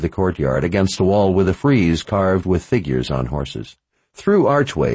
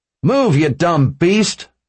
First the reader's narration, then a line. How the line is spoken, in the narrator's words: Jessup bellowed